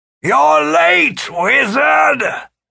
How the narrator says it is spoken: The old man yelled

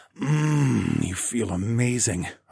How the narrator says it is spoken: growled

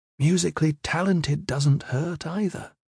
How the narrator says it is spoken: Tia said wistfully

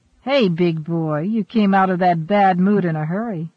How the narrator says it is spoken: she laughed

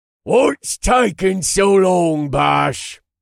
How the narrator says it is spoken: Jackstim growled from behind me

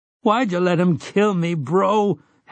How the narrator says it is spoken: Henry sobbed

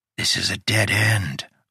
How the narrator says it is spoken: Udo whispered

